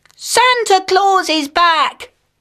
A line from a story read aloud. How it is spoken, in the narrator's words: cried Titch